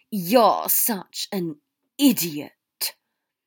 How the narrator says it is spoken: Draco hissed

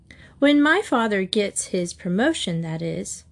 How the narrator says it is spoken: she added with a modest laugh

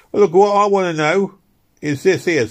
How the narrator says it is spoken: said the semi-drunk, suddenly advancing in the middle of the ring and speaking in a loud voice

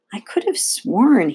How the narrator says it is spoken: murmured

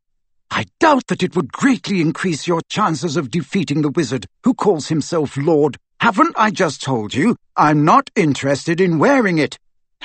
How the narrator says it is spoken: Harry said fiercely

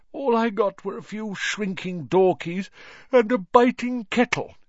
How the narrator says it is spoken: yawned Mr

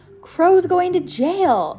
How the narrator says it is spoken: Otis Amber wailed

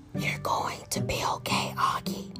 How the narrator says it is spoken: Mom whispered with all her might

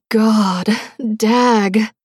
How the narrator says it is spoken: Brenae exclaimed

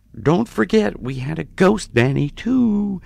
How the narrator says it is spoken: my mom always would chirp in something like

